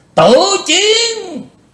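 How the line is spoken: Demonic roar. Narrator (Vietnamese): Lý Vân Hạo gầm to như quỷ giống

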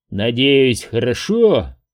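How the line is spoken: Mocking low drone. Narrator (Russian): с издевкой прогудел

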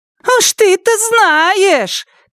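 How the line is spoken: Shout from crowd. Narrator (Russian): крикнул кто-то из задних рядов толпы

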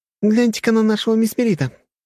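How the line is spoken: Loud laughter. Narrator (Russian): Питвин расхохоталась

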